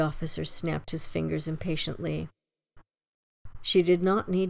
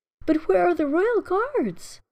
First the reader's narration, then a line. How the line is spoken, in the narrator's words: cried Elise